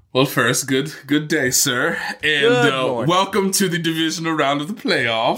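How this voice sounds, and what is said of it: Put-on unidentified accent. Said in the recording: “What accent was that? ... There's going to be a lot of voice inflections today.”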